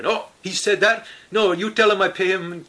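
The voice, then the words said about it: Deliberately bad put-on accent. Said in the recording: “I'm doing a terrible accent”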